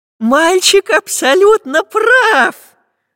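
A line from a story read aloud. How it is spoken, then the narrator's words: Joyful. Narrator (Russian): Радостно закивал профессор Пыхтелкин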